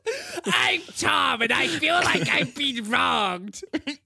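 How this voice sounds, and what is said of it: Nebraska accent like Gilbert Gottfried. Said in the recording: “I like your Nebraska accent because it sounds like Gilbert Gottfried.”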